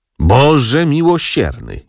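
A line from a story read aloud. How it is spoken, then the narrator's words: Groaning aunt. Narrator (Polish): jęknęła ciotka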